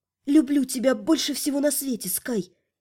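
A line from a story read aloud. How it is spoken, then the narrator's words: Soft whisper. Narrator (Russian): я тихо прошептала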